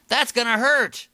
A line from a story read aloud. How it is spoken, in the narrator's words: Seth shouted back